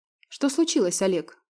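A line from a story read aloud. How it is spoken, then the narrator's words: Calm question. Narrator (Russian): спокойно уточнила Женя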